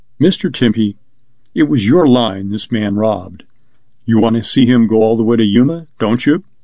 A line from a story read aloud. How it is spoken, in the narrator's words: said calmly